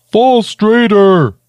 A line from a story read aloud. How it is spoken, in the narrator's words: Squonk shouted